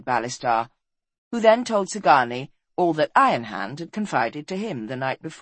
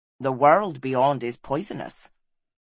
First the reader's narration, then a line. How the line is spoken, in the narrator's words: said Ballistar coldly